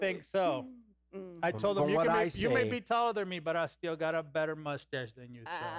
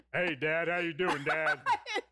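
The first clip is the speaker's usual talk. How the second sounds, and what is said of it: Deep-voiced imitation of a teen boy. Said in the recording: “With a deep voice... he had a deep voice”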